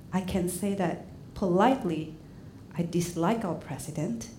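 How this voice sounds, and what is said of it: English spoken with a foreign accent. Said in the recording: “in English, and with my beautiful accent”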